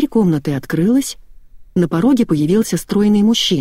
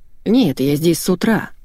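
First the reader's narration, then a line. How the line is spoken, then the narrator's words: Gloomy objection. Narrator (Russian): мрачно возразил Голиков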